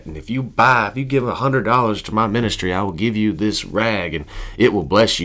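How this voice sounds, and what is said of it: Southern preacher voice. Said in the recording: “my Southern preacher voice”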